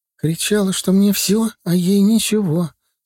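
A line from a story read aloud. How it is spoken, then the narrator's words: Tearful recollection. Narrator (Russian): сквозь слезы вспоминала Галия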